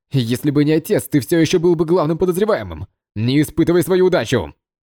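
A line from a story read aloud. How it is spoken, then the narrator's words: Angry shout. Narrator (Russian): не выдержал и закричал в гневе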